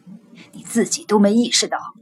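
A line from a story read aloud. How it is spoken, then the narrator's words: Lowered voice. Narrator (Chinese): 将军压低声音说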